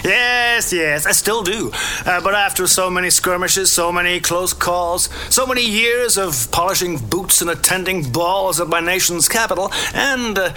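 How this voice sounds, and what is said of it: American accent. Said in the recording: “Colonel, you served in the American Army. ... my accent gave me away.”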